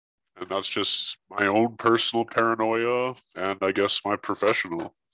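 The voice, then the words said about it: Electronically altered voice. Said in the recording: “I'm using a voice changer because I don't want to leak my voice print online.”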